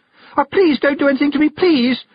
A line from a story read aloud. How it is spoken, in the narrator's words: she cried